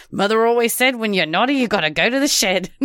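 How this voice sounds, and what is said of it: Imitating Kevin Kline's Australian accent. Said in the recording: “Kevin Klein plays himself and his own dad, who's Australian. ... he's like doing this Australian accent.”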